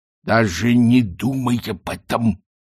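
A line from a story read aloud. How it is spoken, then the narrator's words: Threatening hiss. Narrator (Russian): с угрозой прошипел Ринсвинд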